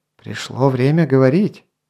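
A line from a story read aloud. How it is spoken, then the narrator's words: Soft prompting. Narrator (Russian): мягко подсказал обвиняемый Мгавен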